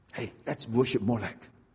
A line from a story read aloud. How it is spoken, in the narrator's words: quietly